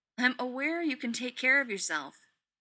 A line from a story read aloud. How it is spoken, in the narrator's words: Rodney snaps